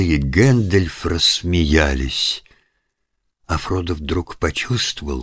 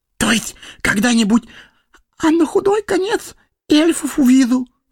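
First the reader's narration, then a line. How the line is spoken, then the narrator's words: Whispered. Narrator (Russian): добавил шепотом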